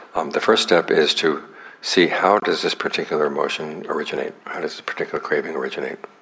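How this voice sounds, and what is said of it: Strained, hoarse, fading voice. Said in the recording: “Sorry, I'm losing my voice so early today.”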